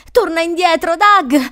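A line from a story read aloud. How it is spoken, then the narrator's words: Yelling. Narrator (Italian): urlava Crystal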